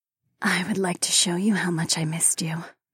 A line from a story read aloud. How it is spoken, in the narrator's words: the auburn-haired woman whispered